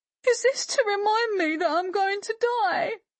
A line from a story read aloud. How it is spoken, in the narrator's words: She sobbed